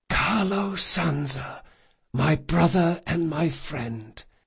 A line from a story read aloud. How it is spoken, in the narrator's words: Locke in an impossibly calm voice he whispered